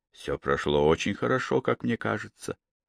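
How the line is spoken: Quiet. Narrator (Russian): сказал он также тихо

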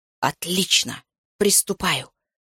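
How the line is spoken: Whisper. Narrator (Russian): шепнул я президенту

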